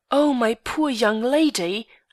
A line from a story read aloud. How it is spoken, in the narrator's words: I exclaimed, with every appearance of great concern